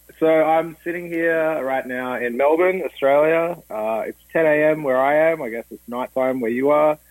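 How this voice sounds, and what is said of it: Slight Australian accent. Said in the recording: “he has a bit of an accent”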